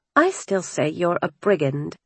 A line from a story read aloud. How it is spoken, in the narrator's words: muttering